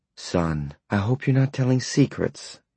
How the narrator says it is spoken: Vera Smith said brightly

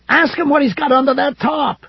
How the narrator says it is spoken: Ed yelled suddenly

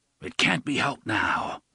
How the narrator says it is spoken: the gunslinger said in his hoarse voice

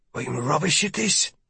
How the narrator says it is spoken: she murmurs to me in Old Irish

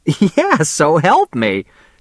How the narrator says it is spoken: she laughed

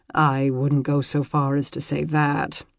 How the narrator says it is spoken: Mark mumbled, and damned if he didn't flush at the compliment

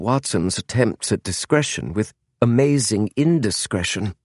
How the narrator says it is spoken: murmured James

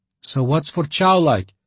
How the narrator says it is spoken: Leocha repeated in bewilderment

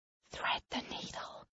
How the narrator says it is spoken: she whispers

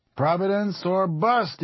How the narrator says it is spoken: he cried

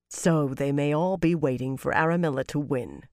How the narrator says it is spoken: Birgitta said grimly

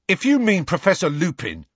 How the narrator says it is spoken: piped up Dean angrily

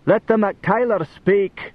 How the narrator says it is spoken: the big and lordly chief of Clan Fergus … bellowed at the throng

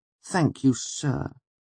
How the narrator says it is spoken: I said meekly

